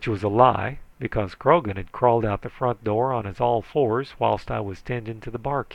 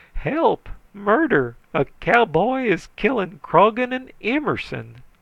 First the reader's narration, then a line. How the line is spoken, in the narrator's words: shrieking